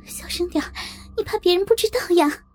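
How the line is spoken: Hurried, hushed. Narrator (Chinese): 我急忙捂住她的嘴，对她说

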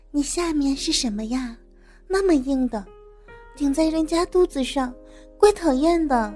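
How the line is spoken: Soft, gentle question. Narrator (Chinese): 兰香轻声款款的问

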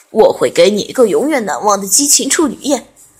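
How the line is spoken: Lewd laughter, close to ear. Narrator (Chinese): 阿德哈哈淫笑道，放肆地咬着他的耳垂道

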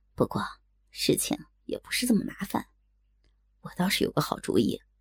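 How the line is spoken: Soft, after deliberate pause. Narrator (Chinese): 大哥故意顿了顿 就小声的继续说道

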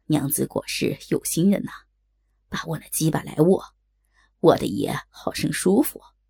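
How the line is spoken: Lewd laughter. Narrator (Chinese): 高衙内淫笑道

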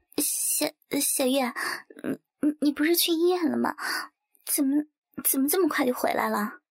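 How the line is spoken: Stammering. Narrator (Chinese): 圆圆 结结巴巴地说

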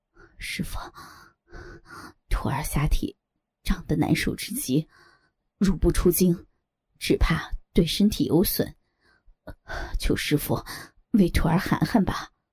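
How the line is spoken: Panting, feigned pain. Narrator (Chinese): 左剑清假装仍然疼痛，喘息着说

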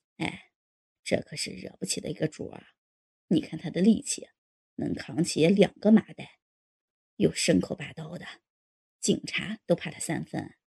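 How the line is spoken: Quiet. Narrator (Chinese): 老牛头小声说

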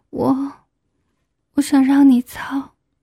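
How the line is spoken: Trembling, embarrassed. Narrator (Chinese): 满脸通红，声音颤抖着说

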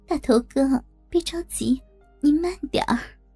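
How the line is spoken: Cold sneer. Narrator (Chinese): 我冷笑着说

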